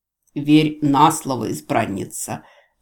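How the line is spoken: Venomous snort. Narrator (Russian): ядовито фыркнул пленитель

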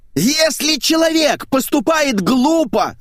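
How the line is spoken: Landlady's deafening yell. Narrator (Russian): заорала хозяйка с такой силой, что у меня зазвенело в голове

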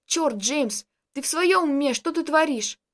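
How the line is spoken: Groaning. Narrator (Russian): Простонал незнакомец

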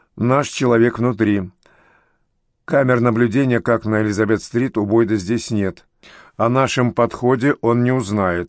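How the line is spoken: Grim. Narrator (Russian): мрачно добавил

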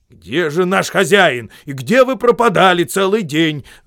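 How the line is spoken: Crowd shouting. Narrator (Russian): закричали все при виде Гэндальфа

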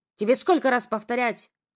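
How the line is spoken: Growl. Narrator (Russian): рыкнул

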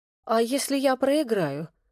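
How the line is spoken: Trembling voice. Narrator (Russian): дрожащим голосом произнесла Вероника

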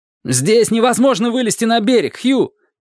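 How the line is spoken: Shouted. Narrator (Russian): крикнул Дик

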